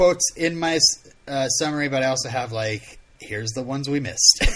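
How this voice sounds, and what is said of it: Usual voice. Nothing is said of it.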